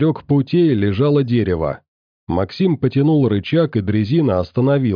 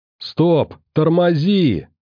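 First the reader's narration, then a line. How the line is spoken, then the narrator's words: Sudden yell. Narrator (Russian): вдруг заорал Клим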